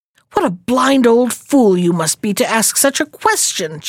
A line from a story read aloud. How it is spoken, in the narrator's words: she answered angrily